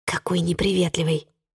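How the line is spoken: Whispered complaint. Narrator (Russian): шепотом посетовала Чи

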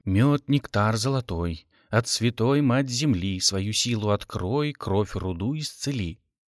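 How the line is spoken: Muttered incantation. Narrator (Russian): Родион бормотал

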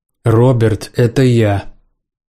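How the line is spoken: Angry man. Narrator (Russian): Сердито произнес мужчина

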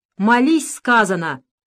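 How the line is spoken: Shout. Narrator (Russian): крикнул на него Луготинцев

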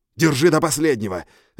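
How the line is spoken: Barked. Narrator (Russian): рявкнул я

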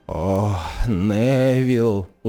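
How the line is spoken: Sighing elderly woman. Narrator (Belarusian): уздыхнула пажылая жанчына

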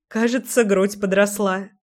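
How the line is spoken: Short laugh. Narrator (Russian): хохотнула Леся

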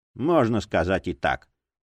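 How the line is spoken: Gruff mutter. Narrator (Russian): буркнул детектив

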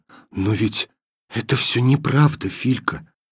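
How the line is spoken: Whisper. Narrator (Russian): сказала она шепотом

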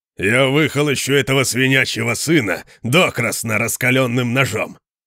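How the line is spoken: Growled. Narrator (Russian): прорычал Конан

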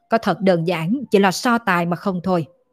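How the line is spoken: Cold snort. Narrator (Vietnamese): Tào Chính Văn vẫn lạnh lùng hừ

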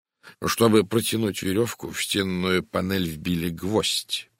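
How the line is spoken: Serious tone. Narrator (Russian): продолжил Пуаро по-прежнему серьезным тоном

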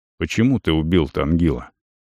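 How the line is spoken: Quiet question. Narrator (Russian): так же негромко задал встречный вопрос Вент

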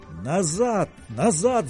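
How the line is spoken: Yelling. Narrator (Russian): завопил Расмунсен

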